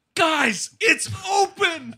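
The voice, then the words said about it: Breathless, out-of-breath shouting. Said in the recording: “out of breath.”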